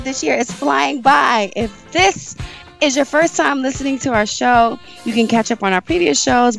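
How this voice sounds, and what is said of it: Hoarse, partly lost voice. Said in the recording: “I'm a little hoarse ... I lost my voice a bit”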